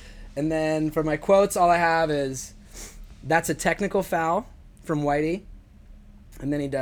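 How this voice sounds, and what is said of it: Usual voice. Nothing is said of it.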